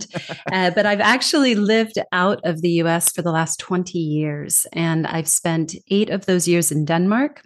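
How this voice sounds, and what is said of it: Californian American accent. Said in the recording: “I'm originally from California, born and raised, if people are trying to place the accent.”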